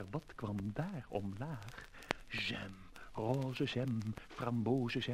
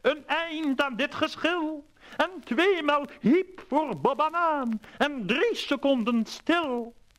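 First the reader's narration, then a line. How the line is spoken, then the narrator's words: Sultan calling out. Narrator (Dutch): riep sultan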